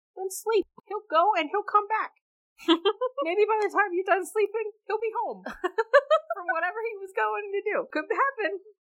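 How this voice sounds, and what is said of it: Sing-song cartoon bird voice. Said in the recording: “talking like a Disney bird”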